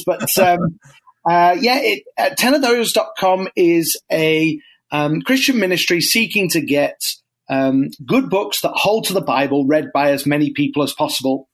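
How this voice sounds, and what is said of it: British English accent. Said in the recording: “As you might guess from my accent, I'm not from around here. I'm originally a Brit”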